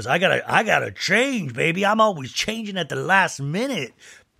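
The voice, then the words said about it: Loose impression of Mauricio. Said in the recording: “that Mauricio voice ... I know that sounds nothing like Mauricio, but that's just my version of Mauricio”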